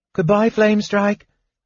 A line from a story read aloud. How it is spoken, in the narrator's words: several of the children called out, wistfully